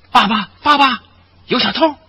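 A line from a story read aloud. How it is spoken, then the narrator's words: Hurried loud shout. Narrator (Chinese): 窦约翰连忙高声喊道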